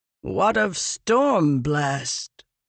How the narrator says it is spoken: a voice called out, thickly accented, from the recesses of the grand chamber

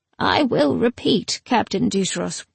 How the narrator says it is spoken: he said sadly

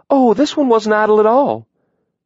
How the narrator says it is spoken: she called cheerfully

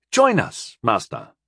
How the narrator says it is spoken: Rondell called, in a less judgmental voice

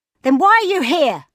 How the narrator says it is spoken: She shouted

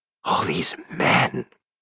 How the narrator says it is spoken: he gasped

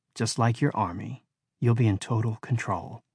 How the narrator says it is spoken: she whispered

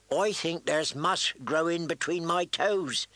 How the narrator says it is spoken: he declared mournfully

